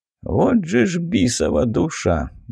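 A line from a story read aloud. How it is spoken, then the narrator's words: Mild mutter under breath. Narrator (Russian): незлобно пробормотал себе под нос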